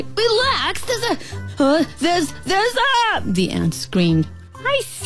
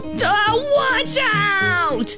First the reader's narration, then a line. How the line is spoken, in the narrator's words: the ant yelled